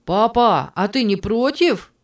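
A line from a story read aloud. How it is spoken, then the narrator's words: Shouted. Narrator (Russian): крикнул он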